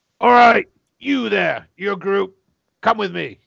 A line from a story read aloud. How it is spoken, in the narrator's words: Captain Marcus yells out